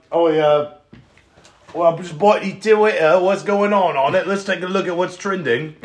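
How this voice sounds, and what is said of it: Attempted South African accent impression. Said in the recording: “Oh, I'm Elon Musk, yeah? I don't know what a South African accent sounds like.”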